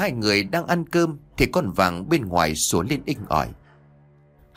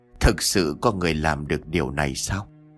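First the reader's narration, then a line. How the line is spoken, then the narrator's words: Muttering. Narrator (Vietnamese): thầy Lương lẩm bẩm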